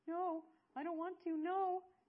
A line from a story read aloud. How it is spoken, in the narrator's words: Fairchild moaned